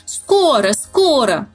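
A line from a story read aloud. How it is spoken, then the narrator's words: Ducks shouting together. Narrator (Russian): закричали все утки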